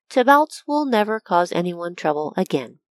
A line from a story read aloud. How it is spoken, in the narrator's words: he calmly stated